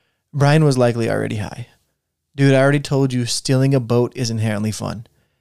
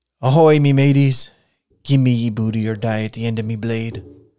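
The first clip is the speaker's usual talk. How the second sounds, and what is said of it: Terrible pirate voice impression. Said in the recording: “doing a terrible impression of a pirate”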